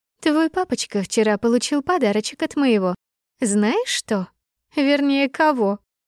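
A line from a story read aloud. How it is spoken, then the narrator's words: Laughing. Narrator (Russian): Засмеялась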